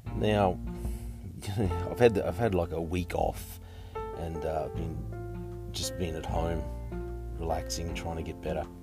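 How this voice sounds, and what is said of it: Croaky, sick-sounding voice. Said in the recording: “I've been sick with bronchitis ... my voice is a bit croaky”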